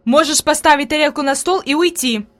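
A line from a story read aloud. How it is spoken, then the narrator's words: Angry. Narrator (Russian): произнесла Фрейлин сердито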